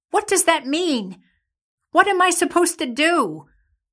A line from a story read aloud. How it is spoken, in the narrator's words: called out